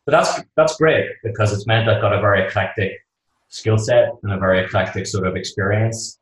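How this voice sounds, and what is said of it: Northern Irish Belfast accent. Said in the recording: “that's probably not a Boston accent that they're hearing ... No, but it's pretty close. I'm from Belfast in Northern Ireland.”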